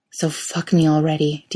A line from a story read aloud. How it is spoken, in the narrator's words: Dean says, in a hoarse voice that turns into a groan